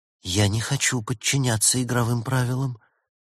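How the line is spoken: Quiet. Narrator (Russian): тихо произнесла Елена

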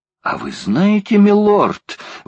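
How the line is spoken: Exclamation. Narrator (Russian): воскликнул Паганель

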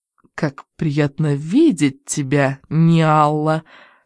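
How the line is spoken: Plain. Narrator (Russian): сказала Ниала

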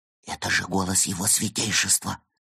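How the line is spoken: Shocked whisper. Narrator (Russian): прошептал потрясенный Евгений

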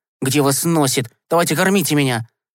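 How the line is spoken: Angry. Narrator (Russian): Сердито сказал Гешка

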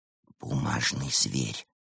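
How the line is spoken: Whisper. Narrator (Russian): прошептал Евгений

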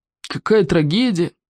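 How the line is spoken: Sigh. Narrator (Russian): Вздохнул Смаркал

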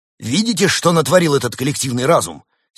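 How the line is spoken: Angry professor exclaiming. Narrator (Russian): сердито воскликнул профессор

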